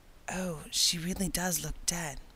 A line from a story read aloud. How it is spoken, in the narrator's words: whispered Ruby Gillis nervously